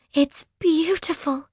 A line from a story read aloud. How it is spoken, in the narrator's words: Coral gasps